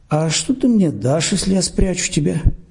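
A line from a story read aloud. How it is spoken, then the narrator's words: Plain. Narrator (Russian): спросил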